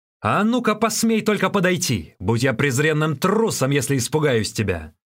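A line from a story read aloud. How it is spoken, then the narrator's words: Shouting. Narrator (Russian): он закричал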